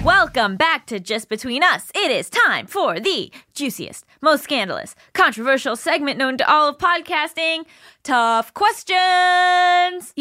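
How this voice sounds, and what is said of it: Boxing match announcer voice. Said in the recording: “I'm adding like an announcer voice too ... I'm like announcing like a boxing match ... It's very official”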